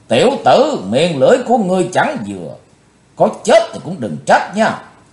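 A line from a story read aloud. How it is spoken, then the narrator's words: Furious roar. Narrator (Vietnamese): Bạch Phát Ma Cơ gầm thét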